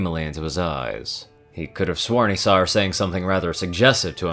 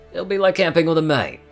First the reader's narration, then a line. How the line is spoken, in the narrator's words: he replied cheerfully